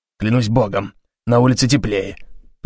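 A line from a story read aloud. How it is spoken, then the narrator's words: Grumble. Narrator (Russian): пробурчал он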